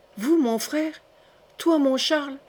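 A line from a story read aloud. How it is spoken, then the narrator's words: Exclaimed. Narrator (French): s'écria-t-elle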